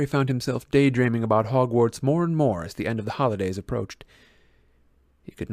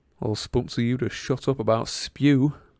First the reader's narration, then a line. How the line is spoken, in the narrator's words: Ron muttered irritably, but so only Harry could hear him